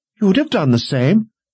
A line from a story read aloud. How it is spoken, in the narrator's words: Sister Aubrey snapped